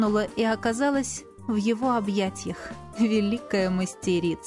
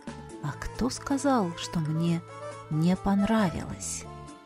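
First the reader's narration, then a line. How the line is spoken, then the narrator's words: Whispering. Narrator (Russian): Прошептал он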